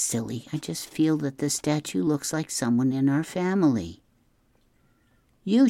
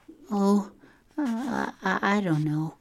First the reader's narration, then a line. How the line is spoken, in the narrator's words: she stammered